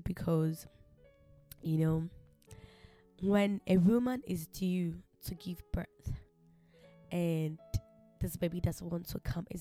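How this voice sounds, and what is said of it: Subdued voice after crying. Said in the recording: “You can tell from my voice that I'm actually a bit down with my with the sound of my voice because I just went in my prayer closet and I shed some tears”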